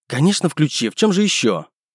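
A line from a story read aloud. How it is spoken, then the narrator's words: Irritated, curt. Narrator (Russian): Раздраженно бросила женщина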